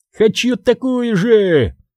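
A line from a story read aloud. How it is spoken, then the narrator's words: Shouting. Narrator (Russian): закричал Пак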